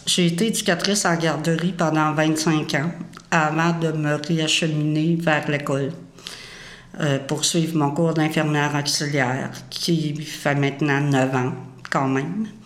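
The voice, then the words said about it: Strong Lac-Saint-Jean Quebec accent. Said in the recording (French): “originaire du lac Saint-Jean, de là mon accent prononcé”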